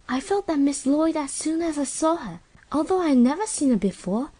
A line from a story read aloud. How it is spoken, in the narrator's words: said Sylvia dreamily